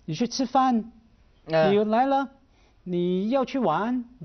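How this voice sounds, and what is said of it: Mandarin with rising English-style intonation. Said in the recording (Chinese): “这样就那个尾音就拉起来，其实他是用英文的语调来讲中文”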